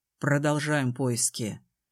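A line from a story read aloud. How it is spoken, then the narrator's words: Stern, commanding. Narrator (Russian): Его голос прозвучал неожиданно строго и повелительно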